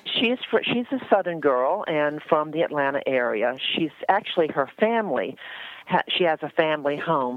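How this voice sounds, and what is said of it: Slight Southern Atlanta accent. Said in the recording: “there's a hint of Atlanta in your voice. Not a lot, ... But a little.”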